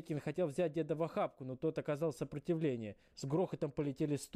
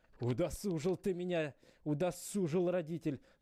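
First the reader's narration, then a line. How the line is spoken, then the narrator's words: Angry. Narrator (Russian): зло говорил он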